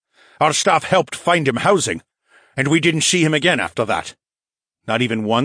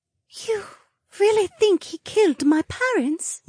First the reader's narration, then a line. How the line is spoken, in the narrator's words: Linnea whispered, and her lower lip trembled